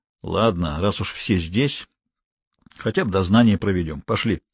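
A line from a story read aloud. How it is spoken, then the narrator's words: Quiet announcement. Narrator (Russian): Гуров объявил негромко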